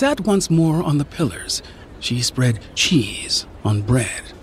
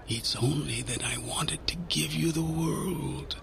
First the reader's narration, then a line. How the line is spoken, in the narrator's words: whispered